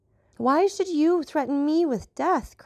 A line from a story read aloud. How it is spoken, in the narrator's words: cried I